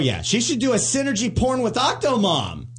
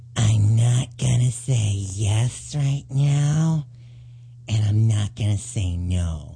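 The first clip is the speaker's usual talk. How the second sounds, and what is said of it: Imitates another person's fake voice. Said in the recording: “that's the fake voice she uses ... you sound exactly like her”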